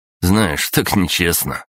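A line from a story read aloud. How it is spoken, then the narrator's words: Smirking snort. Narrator (Russian): хмыкнул Саша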